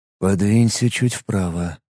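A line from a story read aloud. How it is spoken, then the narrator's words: Whisper in foreign language. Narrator (Russian): шепнул ей Ит на Лаэнгше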